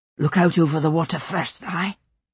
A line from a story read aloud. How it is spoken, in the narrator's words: Jamie whispered